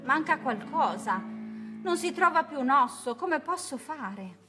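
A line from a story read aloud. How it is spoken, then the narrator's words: Exclaimed. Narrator (Italian): esclamò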